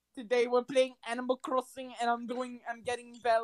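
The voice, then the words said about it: Put-on French accent. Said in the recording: “you just have a French accent right there?”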